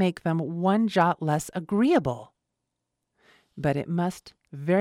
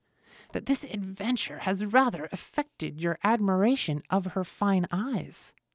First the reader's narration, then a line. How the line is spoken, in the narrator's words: observed Miss Bingley, in a half-whisper